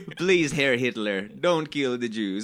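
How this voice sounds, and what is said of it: Put-on unidentified accent. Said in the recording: “I don't know what accent this is.”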